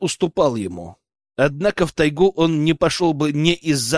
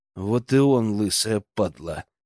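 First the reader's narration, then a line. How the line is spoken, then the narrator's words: Barely audible, through teeth. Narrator (Russian): процедил я едва слышно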